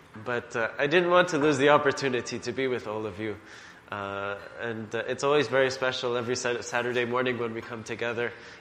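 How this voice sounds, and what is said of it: Voice sounds ill. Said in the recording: “I'm feeling ill, so that you might hear that in my voice.”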